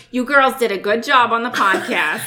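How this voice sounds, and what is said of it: Imitated Boston accent. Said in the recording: “my mom is from Boston ... With her accent ... A Bostonian accent ... that's exactly how it sounds”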